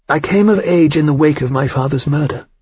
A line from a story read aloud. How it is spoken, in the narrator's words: she said